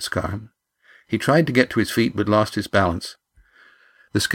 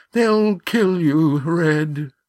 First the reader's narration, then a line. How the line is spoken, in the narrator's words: whimpered Yan